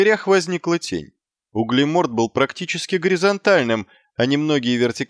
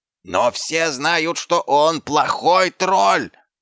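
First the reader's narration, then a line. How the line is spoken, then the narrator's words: Yelled. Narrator (Russian): завопил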